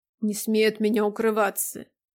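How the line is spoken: Muffled curt remark. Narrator (Russian): Глухо бросил он

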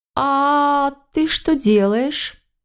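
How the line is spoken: Feigned indifference, hidden panic. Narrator (Russian): Как можно равнодушней протянула я, стараясь, чтобы голос не выдал зарождающуюся панику

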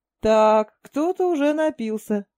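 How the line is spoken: Loud laughter. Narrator (Russian): захохотал Кан

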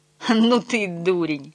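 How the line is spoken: Involuntary laughter. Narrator (Russian): Гарви поневоле рассмеялся

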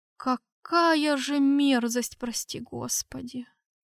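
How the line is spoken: Muttering cardinal. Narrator (Russian): Пробормотал кардинал

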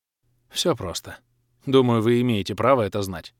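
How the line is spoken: Sighing. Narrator (Russian): вздохнул ангел

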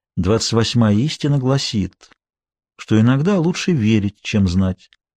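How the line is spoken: Sad, smiling speech. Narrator (Russian): мистер Сарацини печально улыбался и говорил

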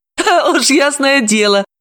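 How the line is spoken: Touched laughter. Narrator (Russian): рассмеялась Далила, растроганно

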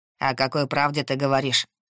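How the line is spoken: Dry questioning. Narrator (Russian): сухо переспросил он

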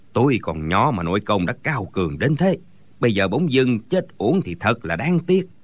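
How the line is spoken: Sighing regretfully. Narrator (Vietnamese): Gã béo mập thở dài nói

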